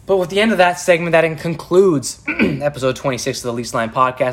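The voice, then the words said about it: Tired, worn-out voice. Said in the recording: “I apologize for my voice, guys. It's been a long day, long night, and forgot to bring some water with me.”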